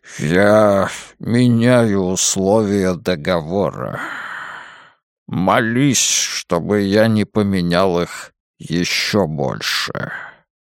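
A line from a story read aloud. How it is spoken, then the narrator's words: Low booming voice. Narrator (Russian): Дарт взял паузу и прогудел низким голосом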